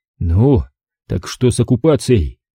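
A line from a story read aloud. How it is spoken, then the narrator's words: Through gritted teeth. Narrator (Russian): Процедил Николай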